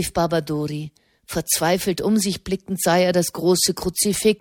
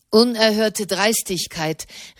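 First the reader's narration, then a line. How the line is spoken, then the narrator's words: Shouting. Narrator (German): rief der Kardinal von Genf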